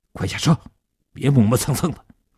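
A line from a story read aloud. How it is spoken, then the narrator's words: Low harsh command. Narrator (Chinese): 年轻人对叶成坚低声地喝道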